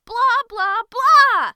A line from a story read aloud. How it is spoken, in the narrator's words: she yelled in anger